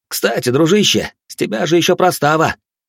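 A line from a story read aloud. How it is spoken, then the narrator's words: Shout. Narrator (Russian): заорал Баженов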